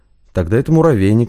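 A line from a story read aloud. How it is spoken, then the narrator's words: Skeptical snort. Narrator (Russian): хмыкнул Лобанов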